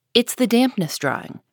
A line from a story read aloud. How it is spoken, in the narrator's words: replied Joe